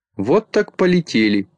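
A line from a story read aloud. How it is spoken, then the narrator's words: Laughing. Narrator (Russian): засмеялся Микроша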